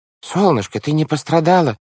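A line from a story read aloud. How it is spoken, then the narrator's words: Exclaimed. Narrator (Russian): воскликнул мистер По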